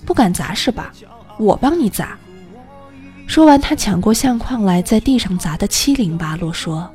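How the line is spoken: Cold. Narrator (Chinese): 程达冷冷地说

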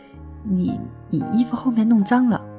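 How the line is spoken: Stammering. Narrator (Chinese): 那个男生结结巴巴地说了一句

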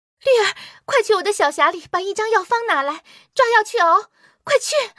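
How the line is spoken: Urgent hurried call. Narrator (Chinese): 他突然想起一事，连忙喊着对绿儿说

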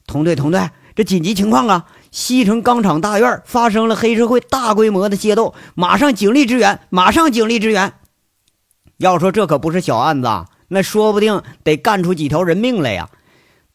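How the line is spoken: Alarmed shout. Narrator (Chinese): 这一惊啊 朝着那个队里就喊了

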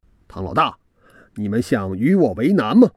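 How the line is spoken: Stern shout. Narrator (Chinese): 我厉声喝道

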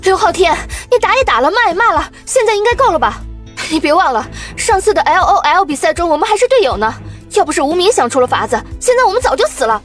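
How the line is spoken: Furious roar. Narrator (Chinese): 王笑笑明显火了，转过头去对刘昊天怒吼道

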